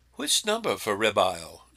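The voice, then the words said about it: Imitated British phone assistant voice. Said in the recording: “the lady in my phone has a British accent”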